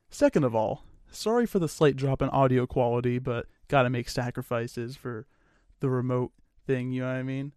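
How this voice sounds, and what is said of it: Strained, sore-sounding voice. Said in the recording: “apologize for my voice. It hurts a little. Yeah. My throat hurts a little bit.”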